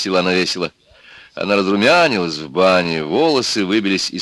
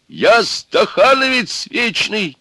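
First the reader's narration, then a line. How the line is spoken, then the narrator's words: Old man nearly shouting. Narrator (Russian): чуть не закричал старик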